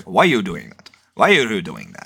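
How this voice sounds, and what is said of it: Thick put-on Indian accent. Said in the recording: “in her real thick Indian accent.”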